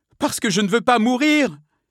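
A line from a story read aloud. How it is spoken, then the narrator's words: Struggling cry. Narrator (French): s'écria Milady en se débattant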